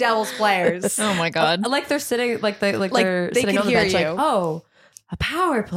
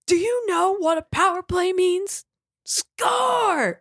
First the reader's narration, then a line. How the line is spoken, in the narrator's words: another Devils fan later in the game screaming